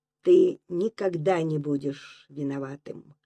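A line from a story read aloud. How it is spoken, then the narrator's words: Quiet, comforting. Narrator (Russian): Так же тихо, словно утешая растерявшегося Речкина, проговорил Донцов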